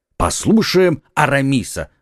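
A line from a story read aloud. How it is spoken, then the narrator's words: Friends exclaiming together. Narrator (Russian): воскликнули друзья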